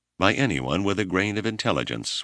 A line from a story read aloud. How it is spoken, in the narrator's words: Whipple replied